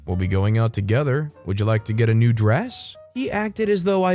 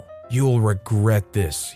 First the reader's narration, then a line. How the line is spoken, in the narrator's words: he said through clenched teeth